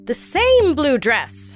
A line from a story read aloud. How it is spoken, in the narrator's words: prosecutors cried